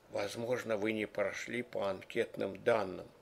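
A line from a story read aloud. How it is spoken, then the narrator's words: Quiet. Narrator (Russian): Чиновник добавил тихо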